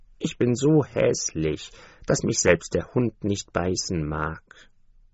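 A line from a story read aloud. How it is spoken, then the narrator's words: Duckling sighing. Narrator (German): seufzte das Entlein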